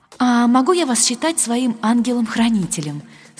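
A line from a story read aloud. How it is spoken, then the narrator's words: Plain. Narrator (Russian): спросила я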